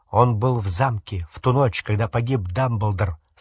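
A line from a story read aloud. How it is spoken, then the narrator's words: Plain. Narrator (Russian): сказал Гарри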